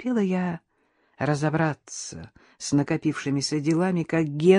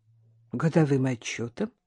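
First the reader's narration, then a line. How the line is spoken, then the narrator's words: Calm, unsuspecting. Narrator (Russian): ответила я спокойно, не ожидая никакого подвоха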